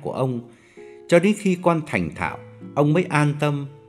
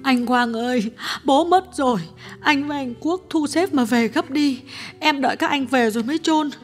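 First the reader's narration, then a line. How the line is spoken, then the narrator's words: Tearful, choked voice. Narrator (Vietnamese): Cô em gái điện thoại sang mếu máo nói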